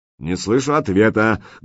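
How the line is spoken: Menacing bark. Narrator (Russian): грозно рявкнул Семен

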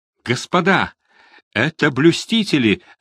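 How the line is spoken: Shout. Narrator (Russian): закричал кто-то

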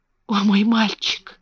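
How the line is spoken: Whisper. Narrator (Russian): прошептал он

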